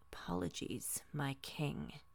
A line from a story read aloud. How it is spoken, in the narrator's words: uttering a half-growled